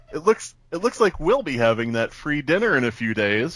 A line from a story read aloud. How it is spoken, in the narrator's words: she chuckled